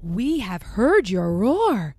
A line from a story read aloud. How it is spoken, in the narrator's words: Rafiki says excitedly